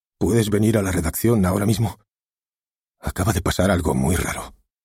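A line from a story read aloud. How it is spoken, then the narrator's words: Uneasy, worried voice. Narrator (Spanish): le dijo con voz intranquila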